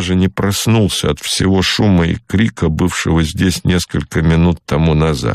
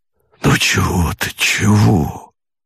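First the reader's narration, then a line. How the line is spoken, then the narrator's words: Mumbling. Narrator (Russian): бормотал Богомолов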